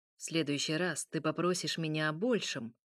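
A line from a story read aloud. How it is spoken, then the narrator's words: Cold, suppressing emotion. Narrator (Russian): произнес Михаил холодно, отчаянно скрывая эмоции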